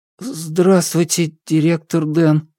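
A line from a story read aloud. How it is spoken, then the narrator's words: Timid babble. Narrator (Russian): пролепетал хан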